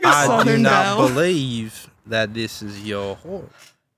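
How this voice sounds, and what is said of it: Put-on Texan Southern accent. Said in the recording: “a Southern accent, like "Howdy, partner," ... Specifically like Texas. South. ... doing a Texan accent?”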